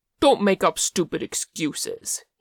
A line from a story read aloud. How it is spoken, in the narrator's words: he snapped